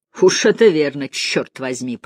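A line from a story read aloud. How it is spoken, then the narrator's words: Growl. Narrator (Russian): прорычал Торренс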